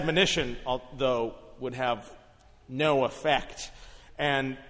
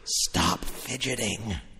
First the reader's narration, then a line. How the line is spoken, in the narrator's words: whisper